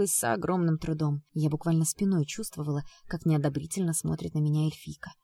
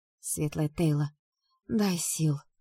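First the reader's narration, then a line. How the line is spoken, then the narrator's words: Groaning. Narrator (Russian): простонала я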